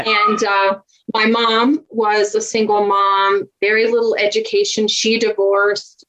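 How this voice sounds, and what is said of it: Southern US accent. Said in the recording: “just a poor country girl from Virginia ... my Southern accent”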